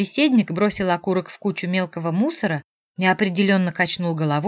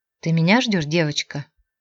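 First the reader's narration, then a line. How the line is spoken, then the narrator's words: Unexpectedly low voice. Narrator (Russian): спросил неожиданно низким голосом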